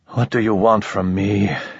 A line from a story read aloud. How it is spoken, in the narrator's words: he asked wearily